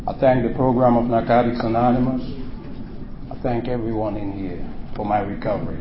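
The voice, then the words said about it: Speaks English with an accent. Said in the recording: “I have an accent, but it's getting better.”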